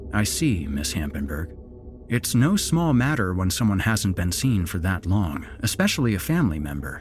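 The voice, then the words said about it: Sympathetic voice. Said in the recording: “put on my best sympathetic voice.”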